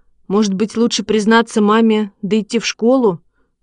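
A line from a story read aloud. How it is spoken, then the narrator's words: Plain. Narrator (Russian): сказал я Косте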